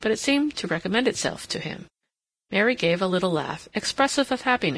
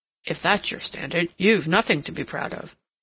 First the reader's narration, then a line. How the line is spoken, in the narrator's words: said Ralph grimly